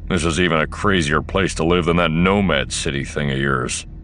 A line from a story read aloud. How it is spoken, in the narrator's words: he growled